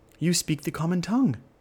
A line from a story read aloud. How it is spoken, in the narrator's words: exclaimed